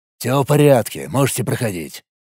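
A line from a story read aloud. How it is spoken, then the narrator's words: Big man grumbling, displeased. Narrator (Russian): недовольно буркнул амбал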